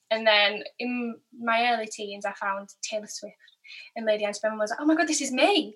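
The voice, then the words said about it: Light southern US accent. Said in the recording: “you've got a southern twang, but it's not a twang. It's like it's just a southern feel to your voice.”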